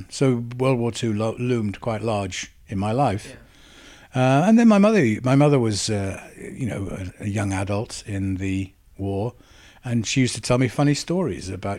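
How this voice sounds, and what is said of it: Slight Swansea Welsh twang. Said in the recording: “a bit of the twang there, I would say. There's a bit sometimes, of the Swansea”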